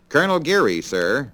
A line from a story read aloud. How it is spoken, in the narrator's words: I replied